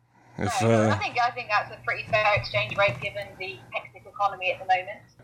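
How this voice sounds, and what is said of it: Thick British accent. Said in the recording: “thick accent ... That's a sexy accent ... her thick British accent”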